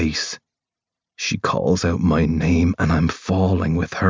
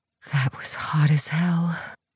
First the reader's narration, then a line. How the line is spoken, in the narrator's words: Rose whispers